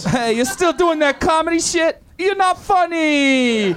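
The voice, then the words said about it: Stereotypical Italian accent. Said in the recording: “Doing a stereotypical Italian accent”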